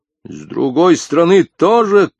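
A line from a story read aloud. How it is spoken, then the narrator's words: Shout. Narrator (Russian): крикнул Язон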